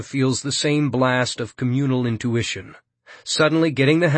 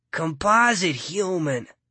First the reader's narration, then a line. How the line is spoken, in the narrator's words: someone grumbles